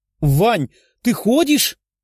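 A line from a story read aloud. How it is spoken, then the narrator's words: Exclaiming. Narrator (Russian): воскликнула Лиза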